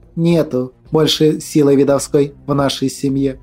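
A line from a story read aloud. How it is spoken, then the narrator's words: Calm female speech. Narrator (Russian): спокойно произнесла Глафира Митрофановна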